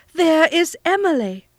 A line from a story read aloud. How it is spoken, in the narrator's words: she cried